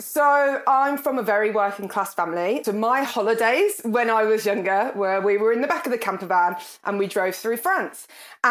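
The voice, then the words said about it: Birmingham accent. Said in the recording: “I come from Birmingham. You can probably tell from my accent.”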